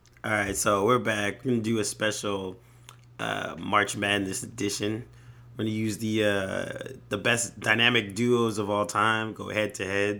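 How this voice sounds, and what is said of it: Voice sounds sick, under the weather. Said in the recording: “excuse my voice. I'm a little under the weather.”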